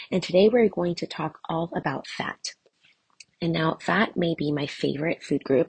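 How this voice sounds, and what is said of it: Sick, cold-affected voice. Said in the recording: “guess who is sick again? ... I seem to have caught some kind of cold or it's allergies ... excuse my voice,”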